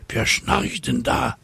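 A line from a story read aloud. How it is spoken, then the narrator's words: Whispered. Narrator (German): flüstert eine Cäcilie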